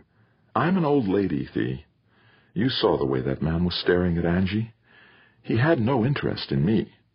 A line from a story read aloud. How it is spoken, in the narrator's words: Pauline said in a softer tone